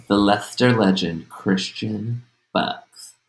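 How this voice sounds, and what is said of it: Close-mic ASMR-style whispery voice. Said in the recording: “I'm doing it right next to the microphone ... ASMR voice”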